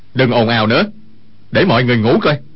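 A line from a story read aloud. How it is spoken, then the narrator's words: Sharp scolding shout. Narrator (Vietnamese): Dương Khang quát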